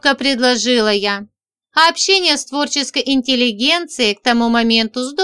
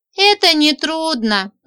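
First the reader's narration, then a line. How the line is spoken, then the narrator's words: Sighing. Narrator (Russian): вздохнула я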